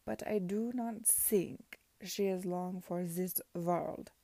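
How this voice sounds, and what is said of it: Thick put-on Prussian accent. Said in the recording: “in some thick approximation of a Prussian accent”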